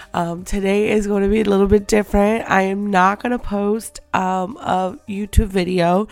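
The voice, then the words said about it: Sick-sounding voice. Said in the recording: “hear it in my voice, but your girl does not feel good.”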